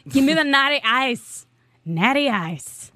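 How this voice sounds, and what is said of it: Attempted American accent sounding Irish. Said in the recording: “Was that an American accent? It was, like, Irish. ... It was totally meant to be American.”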